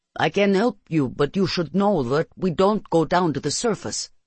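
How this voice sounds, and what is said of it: Thick accent. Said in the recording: “he says in a thick accent.”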